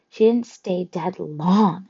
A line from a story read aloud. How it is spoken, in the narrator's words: I said, trying to keep my voice from quivering